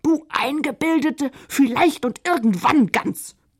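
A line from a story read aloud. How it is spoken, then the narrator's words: Bellowed. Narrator (German): brüllte gerade Josefina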